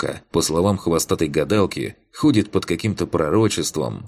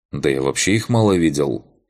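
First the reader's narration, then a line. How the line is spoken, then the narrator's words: Snorting. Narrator (Russian): хмыкнул Макс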